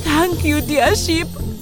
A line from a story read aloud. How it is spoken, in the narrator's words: He cried out